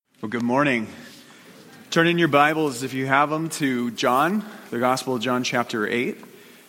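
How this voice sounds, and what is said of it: Snuffly, congested, deeper voice. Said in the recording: “I'm still snuffly, but I'm on the mend. ... Kind of like the deep voice”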